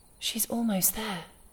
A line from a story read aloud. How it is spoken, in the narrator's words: the woman whispered